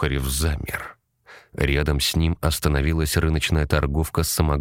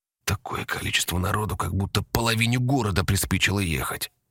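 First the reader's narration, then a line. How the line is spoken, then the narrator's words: Whispered. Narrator (Russian): прошептал Потапов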